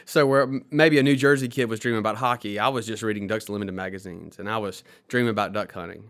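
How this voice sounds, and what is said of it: Southern Mississippi accent. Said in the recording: “As you can probably tell from my accent, I grew up in Mississippi”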